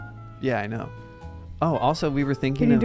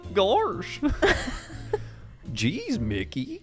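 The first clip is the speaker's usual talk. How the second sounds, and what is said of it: Goofy impression. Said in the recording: “Can you do an impression of Goofy? ... That's pretty good. ... Your lips are quavering.”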